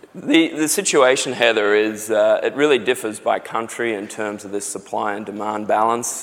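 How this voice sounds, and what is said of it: Australian accent. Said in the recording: “from my accent, you can probably tell I'm Australian”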